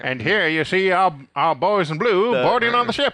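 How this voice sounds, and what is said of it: Nasal Mid-Atlantic radio announcer accent. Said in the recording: “the Mid-Atlantic accent is the accent you hear like on that nasally radio guy. Voice ... do that voice, all you have to do is emphasize your T's and drop your R's on the ends of words ... a combination of British and American English”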